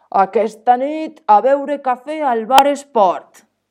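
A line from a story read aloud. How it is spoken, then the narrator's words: Workers shouting. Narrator (Catalan): cridà els peons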